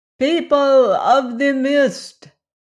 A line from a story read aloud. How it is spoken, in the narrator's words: he cried